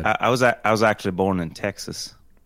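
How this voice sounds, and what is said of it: Very subtle attempted country twang. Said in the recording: “Do you have a country accent? ... It's too subtle. ... I was trying to get a twang.”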